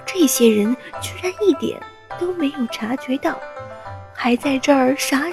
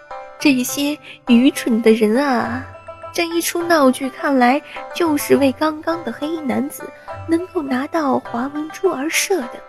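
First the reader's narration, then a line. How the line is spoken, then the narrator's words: Inner mocking laugh. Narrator (Chinese): 玄家炼的心里不禁笑道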